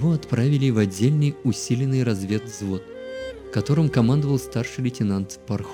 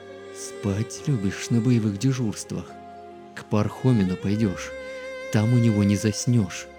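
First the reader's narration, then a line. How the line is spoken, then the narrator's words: Hissing. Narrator (Russian): замкомандира батальона прошипел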